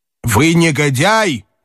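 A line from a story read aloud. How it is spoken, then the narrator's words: Shouting in German. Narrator (Russian): крикнул он коменданту по-немецки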